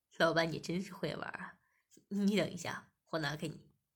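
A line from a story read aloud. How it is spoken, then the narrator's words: Smiling. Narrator (Chinese): 店主笑了笑，便说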